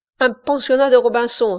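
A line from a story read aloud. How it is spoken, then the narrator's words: Exclaiming. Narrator (French): s'écria Service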